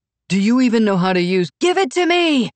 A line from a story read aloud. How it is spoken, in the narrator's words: she shouted